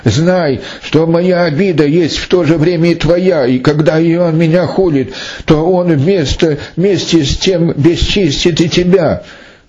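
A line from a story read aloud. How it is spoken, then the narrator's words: Sobbing. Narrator (Russian): С рыданием говорила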